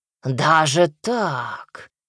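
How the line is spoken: Drawled. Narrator (Russian): протянул Кощей

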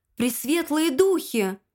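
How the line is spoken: Exclamation. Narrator (Russian): воскликнула мисс Купер

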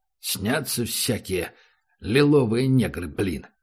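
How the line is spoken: Grumbling. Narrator (Russian): проворчал он

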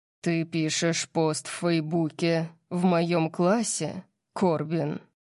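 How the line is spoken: Terrifying growl. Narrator (Russian): Орион зарычал, и веселье в комнате было полностью уничтожено его ужасающим тоном

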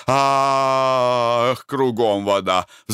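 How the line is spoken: Sighing. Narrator (Russian): вздохнул

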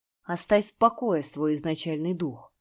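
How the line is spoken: Slightly hoarse voice. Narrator (Russian): Янь Джиньмин, его голос звучал немного хрипло

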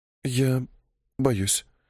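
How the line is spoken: Fearful whisper. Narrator (Russian): прошептала Эва

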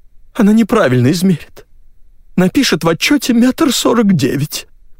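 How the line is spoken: Sobbing. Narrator (Russian): всхлипнула Зюка

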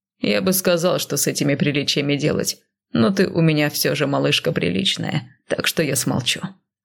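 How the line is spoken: Amused snort. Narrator (Russian): хмыкнул он

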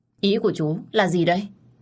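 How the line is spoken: Resentful. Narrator (Vietnamese): tôi hậm hực nói

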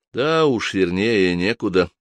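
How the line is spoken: Gloomy remark. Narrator (Russian): мрачно заметил Джордан

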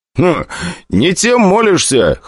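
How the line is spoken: Scoffing grunt. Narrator (Russian): хмыкнул

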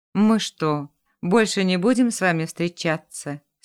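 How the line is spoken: Dejected question. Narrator (Russian): спросил он упавшим голосом

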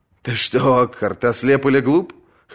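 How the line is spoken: Chuckling. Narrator (Russian): хохотнул

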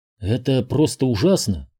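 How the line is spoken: Muttering. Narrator (Russian): пробормотала она

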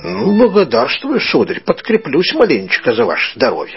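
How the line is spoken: Plain. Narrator (Russian): сказал Петрович

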